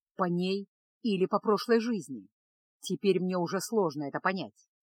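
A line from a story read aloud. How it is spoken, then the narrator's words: Unexpectedly calm reply. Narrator (Russian): неожиданно спокойно ответил Кайл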